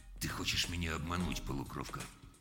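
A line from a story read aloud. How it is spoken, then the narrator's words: Sudden, very quiet. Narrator (Russian): Джонс внезапно сказал очень тихо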